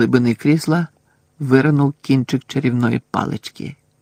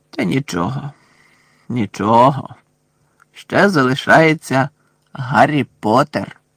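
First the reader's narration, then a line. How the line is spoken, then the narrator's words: Snake hissing. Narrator (Ukrainian): Змія зашипіла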